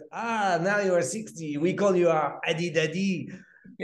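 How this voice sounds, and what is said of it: Mimicked French accent in English. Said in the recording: “with your French accent, or how the guy said it ... I just love how you speak English with a French accent when you're just mimicking it.”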